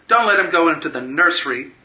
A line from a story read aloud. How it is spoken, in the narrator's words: she shouted